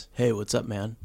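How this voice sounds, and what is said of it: Put-on stereotypical straight man voice. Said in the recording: “do your straight voice. I want to hear ... really straight voice... That's pretty good. That's pretty straight.”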